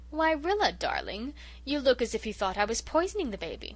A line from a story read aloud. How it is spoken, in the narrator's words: she said, oh so sweetly